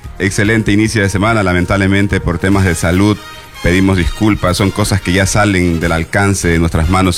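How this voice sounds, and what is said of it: Hoarse, unusual-sounding voice. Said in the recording (Spanish): “disculpe si mi voz está media rara ... parezco que estoy cambiando de voz a voz ronca, a voz de hombre”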